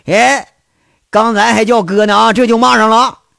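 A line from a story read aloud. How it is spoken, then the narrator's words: Angry scolding. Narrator (Chinese): 杨伟是恼怒的骂他一句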